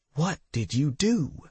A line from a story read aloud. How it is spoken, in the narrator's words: whispered Tasha